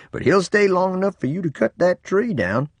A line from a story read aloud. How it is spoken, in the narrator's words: Grandpa chuckled